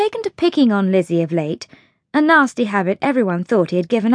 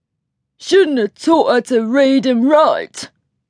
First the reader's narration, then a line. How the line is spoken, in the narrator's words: jeered Joseph